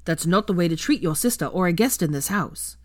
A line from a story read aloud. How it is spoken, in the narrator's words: Charlie barked